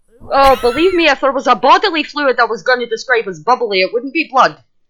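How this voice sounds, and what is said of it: Speaks with a put-on accent. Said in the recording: “that's the accent, dear. The accent getting in the way.”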